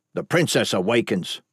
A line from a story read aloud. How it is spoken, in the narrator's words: Boren snapped